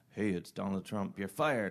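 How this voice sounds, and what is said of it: Imitates another person's voice. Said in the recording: “I don't have a good Donald Trump impression,”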